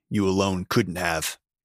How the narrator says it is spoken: he grunted

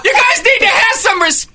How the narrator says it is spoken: Just screaming

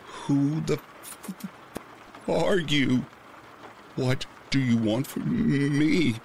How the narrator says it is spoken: managed to stammer out

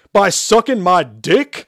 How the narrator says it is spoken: Shepard shouted loudly

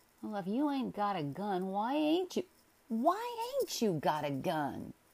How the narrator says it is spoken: he sneered

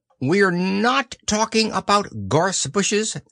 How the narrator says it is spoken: said Owl a little crossly

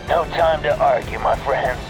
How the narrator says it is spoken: he said with a sad chuckle

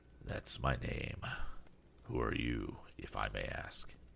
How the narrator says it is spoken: he replied softly

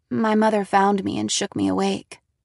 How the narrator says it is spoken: answered

